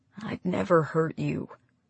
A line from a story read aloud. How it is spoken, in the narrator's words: Hector said quietly